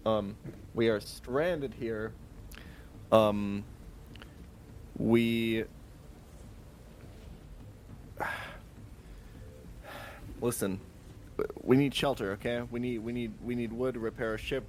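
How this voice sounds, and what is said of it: Deliberately slow speech. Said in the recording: “I- am talking slowly because I heard that she has an accent.”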